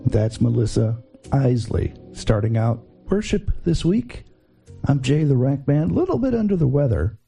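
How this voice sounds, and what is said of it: Scratchy, sick-sounding voice. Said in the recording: “my voice is a little scratchy”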